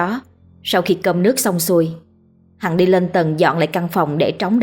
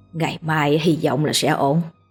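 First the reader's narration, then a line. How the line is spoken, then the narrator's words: Sighing, to herself. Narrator (Vietnamese): Đoạn bà khẽ lắc đầu thở dài, rồi tự nói một mình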